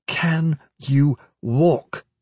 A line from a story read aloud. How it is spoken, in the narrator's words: said, slowly enough that Kip could read her lips